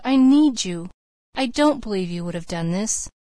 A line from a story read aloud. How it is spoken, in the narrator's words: she moaned